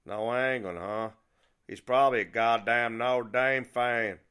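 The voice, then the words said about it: Thick hard-to-understand accent. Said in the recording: “replied in such a thick accent that I almost couldn't understand him”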